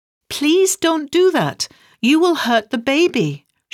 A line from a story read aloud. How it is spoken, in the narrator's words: cried out